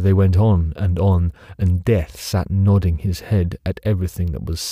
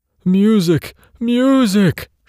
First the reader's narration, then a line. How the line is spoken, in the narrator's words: shrieked the king